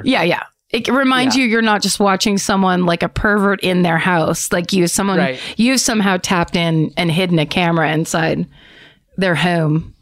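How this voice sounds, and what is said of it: Philadelphia accent. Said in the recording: “There you are with that Philly accent again.”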